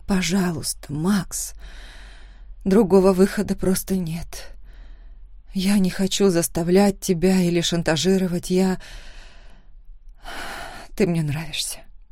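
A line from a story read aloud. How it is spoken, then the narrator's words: Muffled mumble. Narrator (Russian): пробормотала я, уткнувшись в его спину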